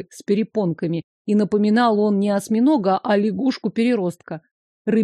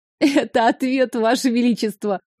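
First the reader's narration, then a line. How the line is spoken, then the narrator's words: Hiccuping after exhausted laughter. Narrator (Russian): проикала, когда сил хохотать уже не осталось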